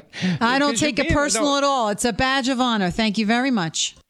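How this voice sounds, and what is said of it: Very thick New York accent. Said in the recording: “her accent is wonderful ... 10 being a very thick New York accent ... I'm going to give her a 10”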